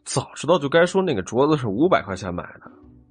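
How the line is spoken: Grumbling mutter. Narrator (Chinese): 王壮撇撇嘴， 忍不住嘟囔起来

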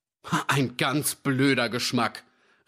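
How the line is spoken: Indignant cry. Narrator (German): rief Ferdy empört

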